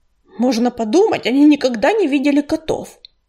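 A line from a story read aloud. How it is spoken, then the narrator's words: Grumbled. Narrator (Russian): проворчал Ураган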